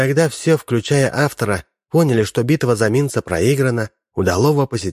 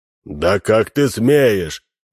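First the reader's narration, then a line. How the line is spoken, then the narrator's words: Roar. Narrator (Russian): взревел будущий диктатор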